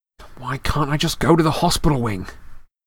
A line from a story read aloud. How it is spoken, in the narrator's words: said Harry through clenched teeth